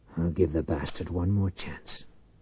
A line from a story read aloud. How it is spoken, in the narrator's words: Finally he muttered